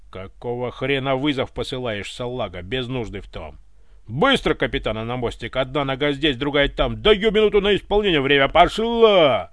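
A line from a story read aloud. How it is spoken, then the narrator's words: Bellowing like drill sergeant. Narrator (Russian): Заорал, как вахмистр на побудке в казарме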